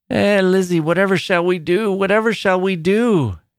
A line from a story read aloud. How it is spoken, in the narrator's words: cried